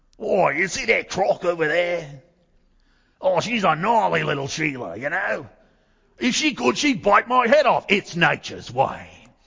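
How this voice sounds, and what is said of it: Imitates another person's voice, poor accent. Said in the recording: “remember the crocodile hunter? ... do you remember how he would talk about things? ... That was probably a terrible accent.”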